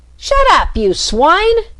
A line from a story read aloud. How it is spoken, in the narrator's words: shouted the Rat